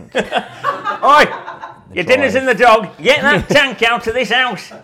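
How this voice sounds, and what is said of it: Put-on northern English accent. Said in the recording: “doing a northern accent”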